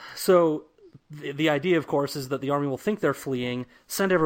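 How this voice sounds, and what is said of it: Usual voice. Nothing is said of it.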